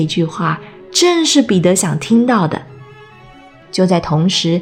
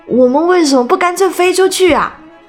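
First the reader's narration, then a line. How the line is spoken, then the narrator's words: Shouting. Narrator (Chinese): 约翰喊着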